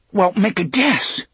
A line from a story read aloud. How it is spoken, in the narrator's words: Eddie exclaimed